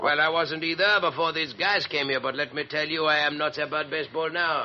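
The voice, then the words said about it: American Brooklyn accent, slight foreign tinge. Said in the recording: “you talk just like one, except for a little bit of accent ... I guess I kind of ended up with a Brooklyn accent”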